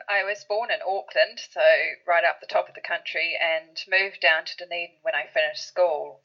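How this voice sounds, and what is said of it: New Zealand accent. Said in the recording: “your accent, you are from New Zealand”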